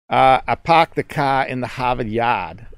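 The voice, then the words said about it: Weak imitation of Boston accent. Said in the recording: “a way Bostonians emphasize their accent. So that was not a good one, a good version... me trying to sound like I'm from the East Coast”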